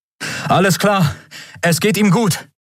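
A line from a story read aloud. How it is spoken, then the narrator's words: Called out. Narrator (German): rief er Endriel und Miko zu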